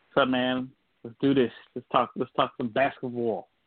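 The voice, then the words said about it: Brooklyn accent. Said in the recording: “you got your Brooklyn accent going down.”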